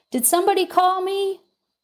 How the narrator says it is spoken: it eagerly pops its head out of its doorway and shouts

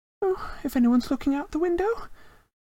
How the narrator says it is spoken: Hermione squeaked

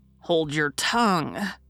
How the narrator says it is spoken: growled Emil, who felt that this event was a blot upon the family honor

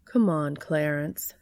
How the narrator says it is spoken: she'd said

